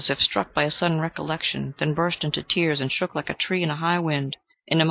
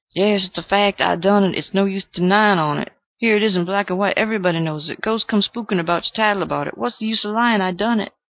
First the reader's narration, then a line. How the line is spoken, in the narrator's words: cried out in a hoarse, choking voice